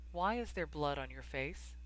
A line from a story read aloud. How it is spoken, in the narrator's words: She asked, too softly